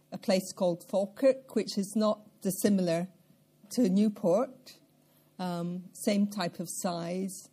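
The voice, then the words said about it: Scottish accent. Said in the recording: “As you probably gather from my accent, even after 40 years in Wales, I'm not Welsh. ... I come from central Scotland”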